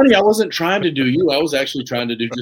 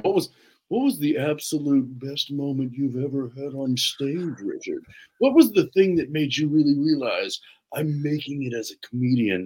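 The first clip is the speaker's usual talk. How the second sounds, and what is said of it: Deep, smug put-on voice. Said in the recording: “almost a good impression ... you got my tone down too. You'll get a deep voice ... just a douche voice”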